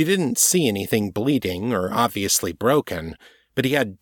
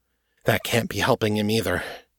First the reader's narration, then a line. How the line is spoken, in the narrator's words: she muttered